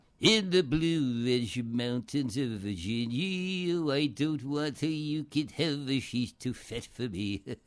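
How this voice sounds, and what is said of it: Imitates a singer's voice. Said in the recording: “This is the old redhead, Arthur Godfrey, singer”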